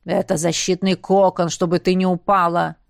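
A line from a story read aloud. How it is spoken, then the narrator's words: Growl inside the head. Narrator (Russian): прорычало у меня в голове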